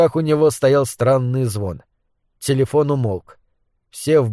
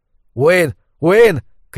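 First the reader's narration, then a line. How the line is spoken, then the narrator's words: Shouting. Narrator (Russian): крикнул Лу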